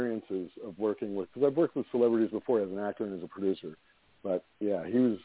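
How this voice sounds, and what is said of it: Usual voice. Nothing is said of it.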